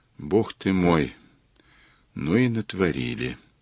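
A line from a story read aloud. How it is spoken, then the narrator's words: Whispered in ear. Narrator (Russian): прошептала Ирина ему в ухо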